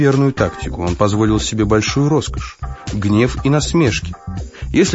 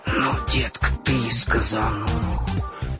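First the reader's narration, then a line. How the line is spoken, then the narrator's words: Whispered. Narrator (Russian): шепнул Приз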